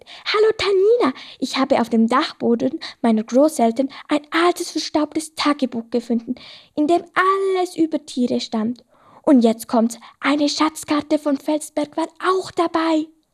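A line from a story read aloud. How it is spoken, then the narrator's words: Excited reply. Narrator (German): Felsi antwortete aufgeregt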